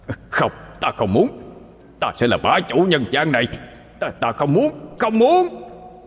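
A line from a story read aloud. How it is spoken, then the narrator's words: Resentful demon howl. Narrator (Vietnamese): Con quỷ không cam tâm mà gào lên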